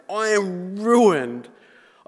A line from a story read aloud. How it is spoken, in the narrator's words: cried